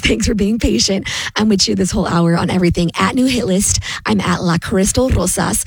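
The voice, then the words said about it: Hoarse, laryngitis-affected voice. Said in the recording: “I'm still getting through this laryngitis.”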